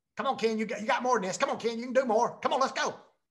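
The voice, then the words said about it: Imitates a pushy coach's voice. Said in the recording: “Is that pretty good impersonation? ... That's awesome, man.”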